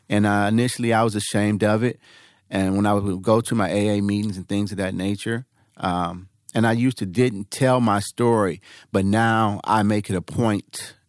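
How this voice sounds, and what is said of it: Emotional, tearful voice. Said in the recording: “I get emotional.”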